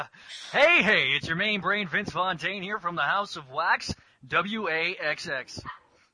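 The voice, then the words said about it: Impression of Vince Fontaine, radio announcer. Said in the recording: “a Vince Fontaine impression ... Vince Fontaine is the radio announcer for Greece ... he's the guy that's kind of creepy”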